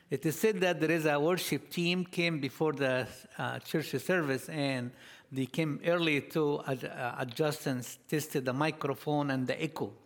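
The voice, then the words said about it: Foreign accent in English. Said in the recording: “I heard that you guys don't have lots of foreigners here... maybe my accent will be harder for you a little bit... you get used to my accent”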